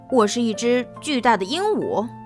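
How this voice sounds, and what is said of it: Disguised hoarse, raspy voice. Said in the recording (Chinese): “布朗提故意伪装了自己的声音，用嘶哑的声音说”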